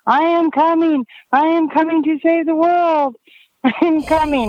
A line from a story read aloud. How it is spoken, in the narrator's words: Naked Jesus screaming